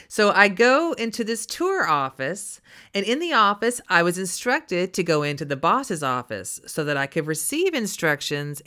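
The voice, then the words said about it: Texan accent. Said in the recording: “as we say down here in Texas. I apologize for my accent.”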